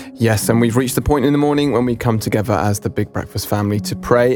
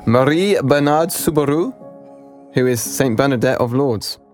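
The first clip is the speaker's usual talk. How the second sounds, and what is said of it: Put-on French accent. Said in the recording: “I'm going to do this in my best French accent ... I'm so sorry to anyone who's French.”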